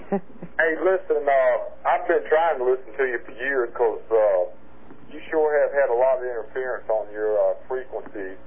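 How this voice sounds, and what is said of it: Southern American accent. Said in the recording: “I love that Virginia, what do we call it? ... Southern accent. ... Southern accent. It's lovely.”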